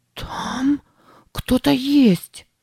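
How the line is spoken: Breathy exhale. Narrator (Russian): выдохнула она

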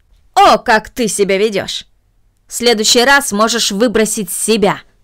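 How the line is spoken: Angry. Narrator (Russian): произнесла мисс Мина, сердито

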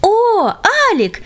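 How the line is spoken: Joyful group exclamation. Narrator (Russian): радостно воскликнули друзья

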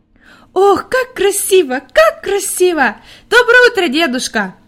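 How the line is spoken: Joyful shouting child. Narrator (Russian): радостно кричала Хайди

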